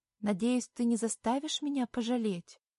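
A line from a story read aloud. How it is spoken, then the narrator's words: Timid. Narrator (Russian): робко произношу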